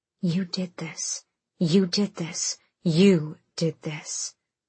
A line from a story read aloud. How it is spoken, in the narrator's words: a voice whispered in her head